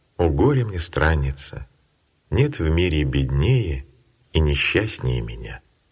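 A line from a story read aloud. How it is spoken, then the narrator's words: Heavy sigh, tearful. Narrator (Russian): Тяжко вздохнув, Матфидия прослезилась и сказала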